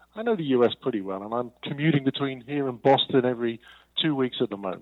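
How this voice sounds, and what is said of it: English London accent. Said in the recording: “as you can tell from his accent, is not from over here in the U.S. ... I'm actually originally an English guy. I'm from London”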